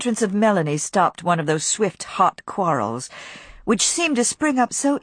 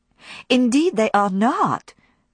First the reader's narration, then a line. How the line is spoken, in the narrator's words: cried Melanie indignantly, forgetting that Scarlett's eyes were almost that shade